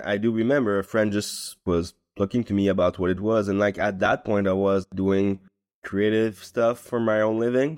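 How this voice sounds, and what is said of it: Non-native English accent. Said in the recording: “I was definitely not speaking English. You listen to my accent right now, like that was really worse than this.”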